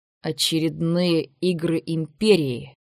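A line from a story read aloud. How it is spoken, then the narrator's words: Spat through clenched teeth. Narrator (Russian): Претор выплюнул слова сквозь зубы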